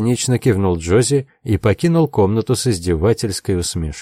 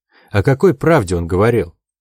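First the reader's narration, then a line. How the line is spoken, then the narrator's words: Sighing. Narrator (Russian): Джози вздохнула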